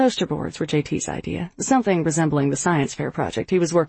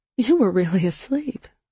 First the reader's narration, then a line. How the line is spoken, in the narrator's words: I said, a drowsy chuckle teasing my throat